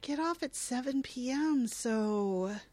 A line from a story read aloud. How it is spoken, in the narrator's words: Belinda shakes her head sadly, informing her